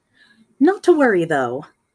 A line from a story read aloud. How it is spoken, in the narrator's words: Yamaguchi picks up cheerfully